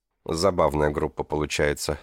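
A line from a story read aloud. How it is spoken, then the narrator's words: Dry remark. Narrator (Russian): сухим тоном заметил Эмилио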